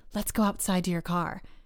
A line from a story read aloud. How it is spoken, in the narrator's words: whispered